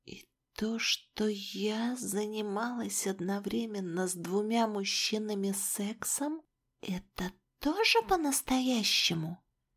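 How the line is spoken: Whispered question. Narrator (Russian): Почему-то шепотом спросила

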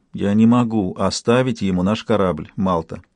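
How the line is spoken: Quiet. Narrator (Russian): сказала она тихо

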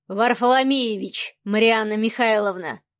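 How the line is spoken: Calm. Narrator (Russian): спокойно произнес Савелий

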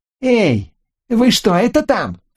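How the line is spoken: Shouted. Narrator (Russian): крикнул

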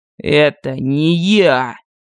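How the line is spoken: Slow, icy. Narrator (Russian): Медленно, ледяным тоном сказал Артокс

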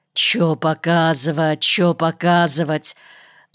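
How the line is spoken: Excited muttering. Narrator (Russian): Возбужденно бормотал провожатый

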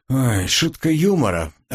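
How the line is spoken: Relieved sigh. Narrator (Russian): облегченно вздохнул

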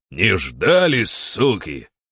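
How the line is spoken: Menacing shout. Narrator (Russian): кричу такой, грозно

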